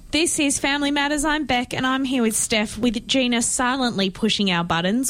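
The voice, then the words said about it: South Australian accent. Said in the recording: “my South Australian accent”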